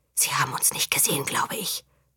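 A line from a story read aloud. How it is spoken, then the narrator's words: Whispered. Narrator (German): flüsterte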